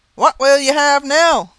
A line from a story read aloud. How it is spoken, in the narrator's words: cried he